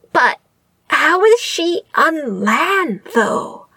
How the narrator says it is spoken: Jing Yi squeaked

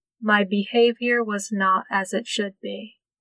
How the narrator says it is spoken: he said evenly

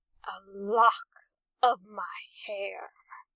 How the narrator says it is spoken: the captain growled

